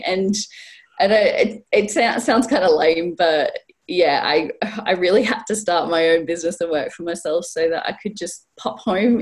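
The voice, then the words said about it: Australian accent. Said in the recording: “you can clearly tell that I'm not originally from the Northeast. This isn't a Geordie accent. I was born in Australia”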